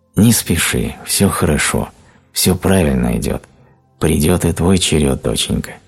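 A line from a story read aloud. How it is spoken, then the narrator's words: Gentle spirit voices. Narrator (Russian): те святые светоносные духи сказали ей ласково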